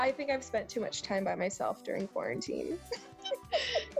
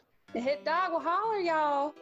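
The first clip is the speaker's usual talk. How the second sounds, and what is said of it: Put-on Southern US accent. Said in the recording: “I should probably say it in my southern accent.”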